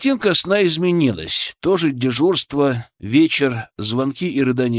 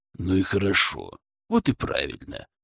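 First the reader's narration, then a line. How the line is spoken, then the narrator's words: Tender cooing. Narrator (Russian): уже ласково воркует Бобков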